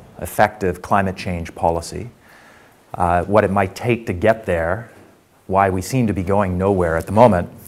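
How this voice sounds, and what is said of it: Hoarse, deeper than usual voice. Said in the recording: “my voice is a little bit hoarse... I don't actually usually sound quite as sonorous as this.”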